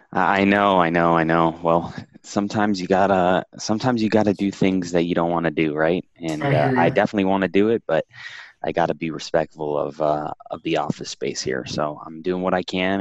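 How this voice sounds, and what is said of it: Soft, hushed radio-host voice. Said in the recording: “like a mix of an NPR host and a librarian... my NPR voice”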